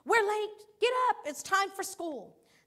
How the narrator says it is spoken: yelling out frantically

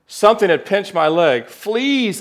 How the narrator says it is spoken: cried

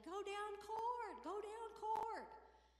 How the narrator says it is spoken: I was up in the stands yelling

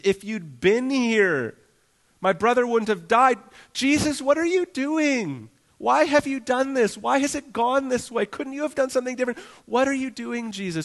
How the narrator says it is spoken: Through her grief, she cries to Jesus

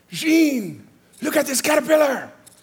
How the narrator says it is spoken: exclaimed to me

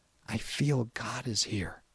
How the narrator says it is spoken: whispered to Grandfather

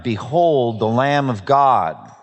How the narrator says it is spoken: he said

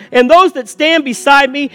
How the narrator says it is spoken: they shout

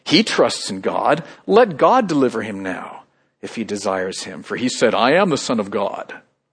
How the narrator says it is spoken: People at the foot of the cross mocking Jesus, saying

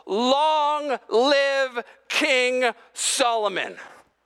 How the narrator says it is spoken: All of Israel will yell

